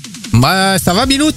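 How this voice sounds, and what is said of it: Put-on northern French accent. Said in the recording (French): “lui il est parti sur un accent un peu nord”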